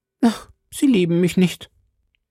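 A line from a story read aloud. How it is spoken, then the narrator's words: Stammering. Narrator (German): stammelte Ketty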